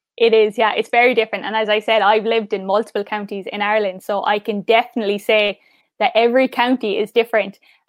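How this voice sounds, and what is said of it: Mild Cork Irish accent. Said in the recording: “they know instantly I'm from Cork because of my accent and the way I talk ... I wouldn't have a strong Cork accent”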